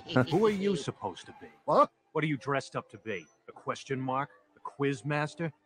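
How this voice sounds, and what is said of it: City accent. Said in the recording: “Batman has a city accent.”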